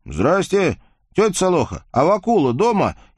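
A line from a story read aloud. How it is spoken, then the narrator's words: Young man shouting from afar. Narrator (Russian): еще от плетня крикнул недавний выпускник-гимназист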